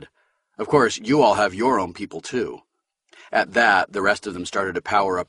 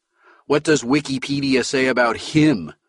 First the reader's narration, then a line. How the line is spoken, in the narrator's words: Kerensky sneered